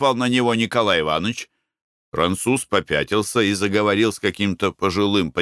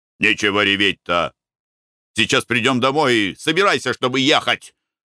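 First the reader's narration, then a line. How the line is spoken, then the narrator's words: Angry. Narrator (Russian): сказал он ей сердито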